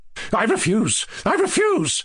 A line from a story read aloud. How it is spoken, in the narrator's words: cried Lizaveta Prokofievna